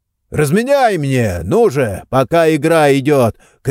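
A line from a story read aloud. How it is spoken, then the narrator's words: Man shouting. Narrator (Russian): крикнул мужчина у игрового автомата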